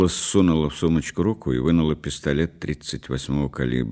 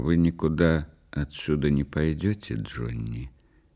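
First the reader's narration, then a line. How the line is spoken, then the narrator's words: Quiet. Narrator (Russian): тихо сказала она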